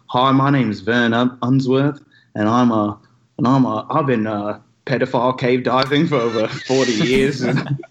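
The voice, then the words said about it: Impression of Vern Unsworth. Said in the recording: “I did an impression of that guy.”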